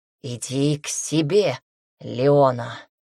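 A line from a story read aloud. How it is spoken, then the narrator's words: Husky repetition. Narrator (Russian): С хрипотцой в голосе повторяет он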